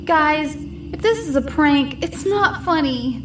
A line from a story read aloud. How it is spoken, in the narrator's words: He yelled